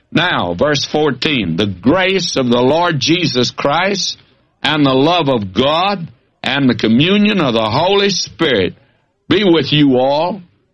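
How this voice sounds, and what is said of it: Speaks with a regional accent. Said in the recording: “don't mind my accent, because Paul had the same accent”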